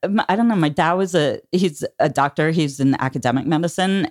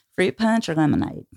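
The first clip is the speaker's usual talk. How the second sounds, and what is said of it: Put-on Memphis Southern accent. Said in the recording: “that's when I learned the Memphis accent. You just lean back.”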